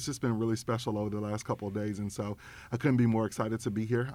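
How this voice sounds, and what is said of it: Arkansas country twang. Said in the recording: “I always, have my Arkansas twang with me”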